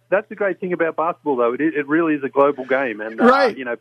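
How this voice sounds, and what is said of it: Distinct accent. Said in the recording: “We like your accent too.”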